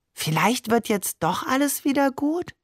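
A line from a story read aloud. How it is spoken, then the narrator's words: Starfish whispering question. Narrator (German): der Seestern fragte mir ins Ohr flüsternd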